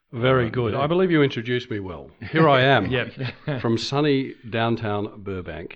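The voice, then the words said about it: Put-on radio announcer voice. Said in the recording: “in my best radio voice.”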